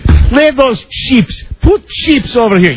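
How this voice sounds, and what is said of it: Thick put-on Russian accent. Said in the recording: “a real thick Russian accent”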